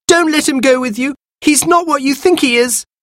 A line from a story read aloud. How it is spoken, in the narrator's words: Anthea ... cried